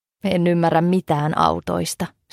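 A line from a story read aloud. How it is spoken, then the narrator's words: Light laugh. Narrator (Finnish): Stina naurahti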